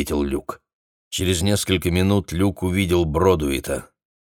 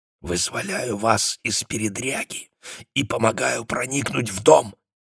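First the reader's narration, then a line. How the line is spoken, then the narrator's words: Whisper. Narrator (Russian): шепотом ответил Люк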